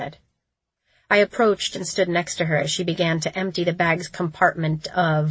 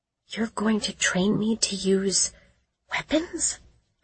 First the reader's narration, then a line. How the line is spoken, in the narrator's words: I whispered